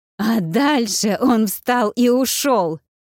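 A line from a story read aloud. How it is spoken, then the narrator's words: Growled. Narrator (Russian): прорычала Вэл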